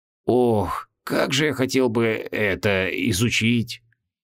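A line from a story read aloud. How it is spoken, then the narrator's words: Tiny professor's moan. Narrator (Russian): простонал крохотный профессор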